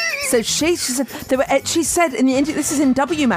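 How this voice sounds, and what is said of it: Usual voice. Nothing is said of it.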